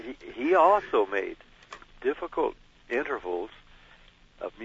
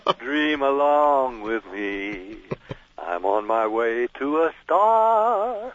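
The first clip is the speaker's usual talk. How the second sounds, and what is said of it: Imitates another person's singing voice. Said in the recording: “that Perry Como impersonation”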